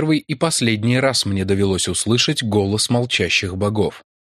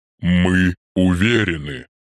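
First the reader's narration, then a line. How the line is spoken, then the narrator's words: Deep booming organ-like thunder. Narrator (Russian): Словно огромный орган, зазвучавший на своей самой низкой ноте, прогремели раскатистые вибрирующие звуки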